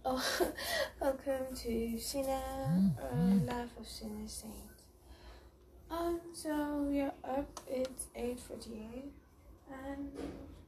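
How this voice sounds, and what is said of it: Slightly rusty morning voice. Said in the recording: “that's why my voice is a little bit rusty”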